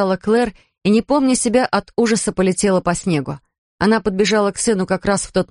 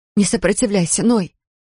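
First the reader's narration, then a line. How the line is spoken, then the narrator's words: Pleading. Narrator (Russian): взмолилась она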